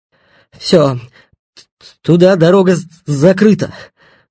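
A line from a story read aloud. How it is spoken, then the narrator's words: Breathless exhale. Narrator (Russian): выдохнул запыхавшийся Стасюк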